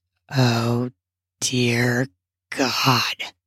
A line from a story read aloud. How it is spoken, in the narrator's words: mumbles